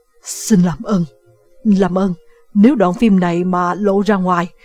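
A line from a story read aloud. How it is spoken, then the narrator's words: Panicked stammering. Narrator (Vietnamese): Solomon hoảng loạn, ông lắp bắp nói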